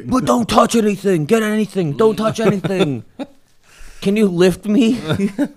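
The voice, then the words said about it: Yelling, imitating a frantic character. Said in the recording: “this guy just doesn't stop yelling”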